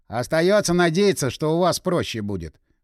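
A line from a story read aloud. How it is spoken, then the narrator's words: Hmph, wry snort. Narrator (Russian): хмыкнул Игорь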